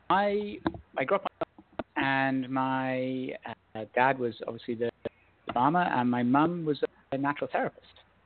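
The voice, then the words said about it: British accent. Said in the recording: “I grew up in the UK by the accent we've already had”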